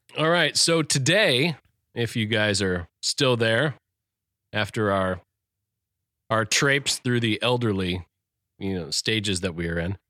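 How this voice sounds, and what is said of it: Tired, rough late-night voice. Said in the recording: “up editing ... 1:32 in the morning ... Which explains my extremely sexy voice right now.”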